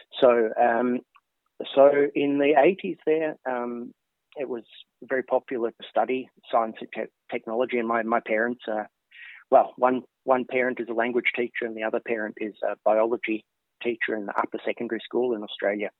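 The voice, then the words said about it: Australian English accent. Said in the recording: “as you can tell from my accent, I'm not a native Swede ... in Australia”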